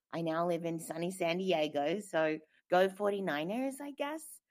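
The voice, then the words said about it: Australian accent. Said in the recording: “I have an accent. ... I am Australian.”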